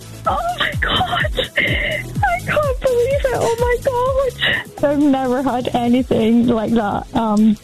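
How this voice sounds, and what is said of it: Local regional accent. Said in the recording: “as you can hear. The accent”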